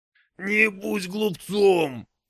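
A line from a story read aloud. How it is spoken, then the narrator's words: Growling. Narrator (Russian): зарычал Орда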